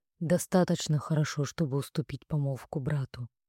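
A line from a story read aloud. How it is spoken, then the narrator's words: Plain. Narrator (Russian): ответил он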